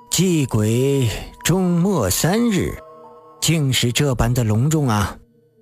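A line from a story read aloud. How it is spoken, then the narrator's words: Sighing. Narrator (Chinese): 狄仁杰叹着说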